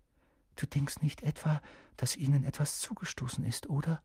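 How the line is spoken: Whispered. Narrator (German): flüsterte Hermine

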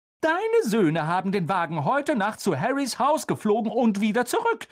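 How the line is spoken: Called out. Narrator (German): rief Mrs

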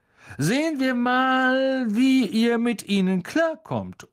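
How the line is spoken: Loud. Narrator (German): sagte Lockhart laut

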